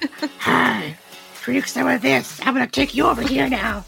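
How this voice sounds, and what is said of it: Silly talking werewolf character voice. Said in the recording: “What is that voice? ... That's my talking werewolf voice.”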